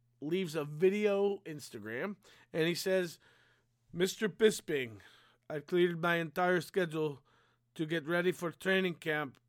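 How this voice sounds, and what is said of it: Poor attempted accent impression. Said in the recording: “This is a horrible accent.”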